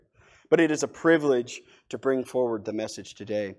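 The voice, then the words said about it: Strained, worn-out voice. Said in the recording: “my voice is already pulling half shot ... rein that voice back in before it's shot”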